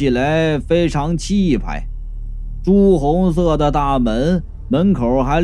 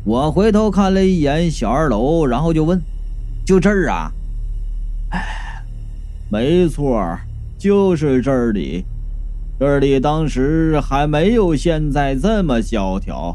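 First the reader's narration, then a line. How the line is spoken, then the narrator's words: Sighing. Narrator (Chinese): 男人头叹道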